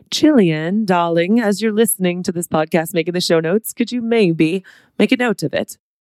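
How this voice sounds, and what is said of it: Attempted British accent. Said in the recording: “You guys don't know my British accent. That's my attempt.”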